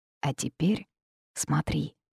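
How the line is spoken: Whisper. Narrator (Russian): шепнул Феникс

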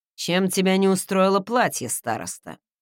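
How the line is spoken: Dry question. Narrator (Russian): сухо спросил он

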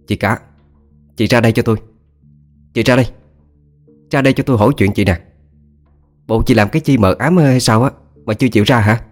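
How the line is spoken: Scolding shout, door banging. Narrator (Vietnamese): tiếng quát nạt, tiếng đập cửa của bà Hai

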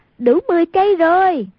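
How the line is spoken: Exclaimed. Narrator (Vietnamese): Hoàng Dung kêu lên

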